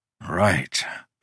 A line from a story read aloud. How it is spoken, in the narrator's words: Udo muttered